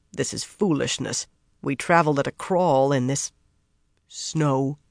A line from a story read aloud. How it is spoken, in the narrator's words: the man who had captured her muttered